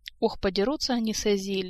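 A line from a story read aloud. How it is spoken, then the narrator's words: Sighing. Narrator (Russian): вздохнул Элмар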